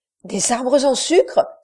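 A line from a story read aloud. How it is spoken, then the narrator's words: Astonished exclamation. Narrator (French): s'écria Costard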